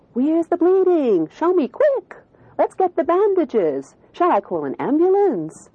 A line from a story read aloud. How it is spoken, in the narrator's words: exclaiming with exaggerated anxiety